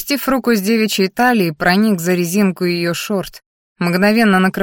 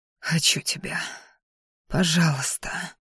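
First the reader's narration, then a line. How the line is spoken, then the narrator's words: Breathless whisper between kisses. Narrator (Russian): шептал между поцелуями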